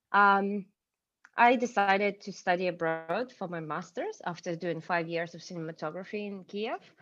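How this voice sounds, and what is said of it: Non-British accent in English. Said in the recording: “your accent doesn't sound like your British accent”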